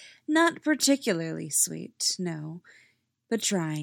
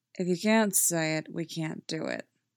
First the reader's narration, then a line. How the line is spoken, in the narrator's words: Derek says flatly